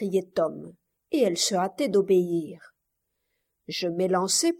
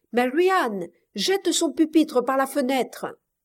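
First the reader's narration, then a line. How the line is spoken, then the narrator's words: Shout. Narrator (French): cria-t-il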